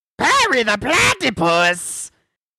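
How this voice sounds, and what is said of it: Cartoon villain character voice impression. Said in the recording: “I can do a Dr. Doofenshmirtz impression... Was that a good impression?”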